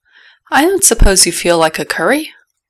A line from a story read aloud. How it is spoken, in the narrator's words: Neville sighed